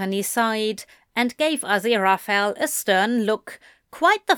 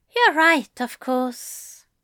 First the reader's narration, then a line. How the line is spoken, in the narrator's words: Aziraphale sighed